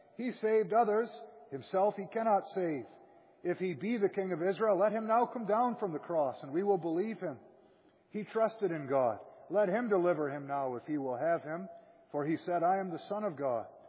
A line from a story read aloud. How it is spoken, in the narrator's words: Likewise also the chief priests, mocking him with the scribes and elders, said